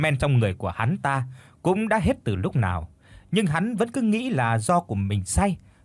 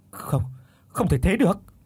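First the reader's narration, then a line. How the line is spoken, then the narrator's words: Stammering. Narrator (Vietnamese): Mồm thì lắp bắp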